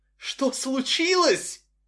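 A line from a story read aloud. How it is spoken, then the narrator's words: Furious choking shout. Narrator (Russian): захлебываясь бешенством, кричала Нэнси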